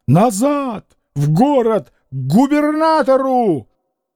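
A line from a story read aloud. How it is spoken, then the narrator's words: Shouted. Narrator (Russian): Кононов кричал капитану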